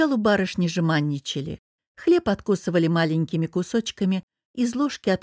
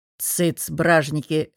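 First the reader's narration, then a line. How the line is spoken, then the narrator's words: Old man barking gruffly. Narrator (Russian): рявкнул старик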